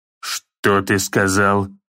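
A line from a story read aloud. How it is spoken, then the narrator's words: Angry growl. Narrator (Russian): Прорычал он, гневно сжал челюсти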